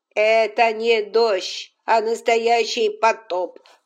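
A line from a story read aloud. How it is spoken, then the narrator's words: Grumbled. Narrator (Russian): проворчала экономка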